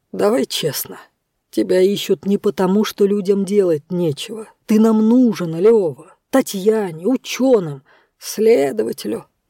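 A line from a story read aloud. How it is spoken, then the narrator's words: Gloomy prompting. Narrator (Russian): мрачно подсказал он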